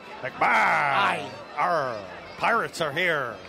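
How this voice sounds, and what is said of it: Bad pirate voice. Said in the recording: “the pirate voices ... That was terrible.”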